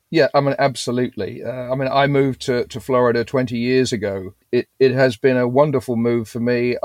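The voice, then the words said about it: Non-Floridian accent. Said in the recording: “from your accent, we can tell that perhaps you're not Floridian born and bred”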